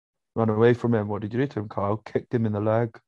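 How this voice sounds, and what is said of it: Weak imitation of a football manager. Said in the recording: “That wasn't a very good Pep impression.”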